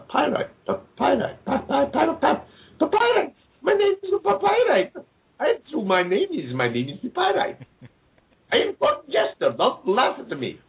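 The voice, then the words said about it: Approximate put-on Puerto Rican accent. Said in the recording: “He all of a sudden has a Puerto Rican accent, if that's an approximation of a Puerto Rican accent.”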